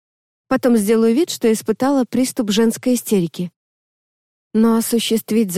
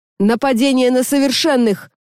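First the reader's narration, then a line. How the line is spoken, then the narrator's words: Yelling. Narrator (Russian): заорал кто-то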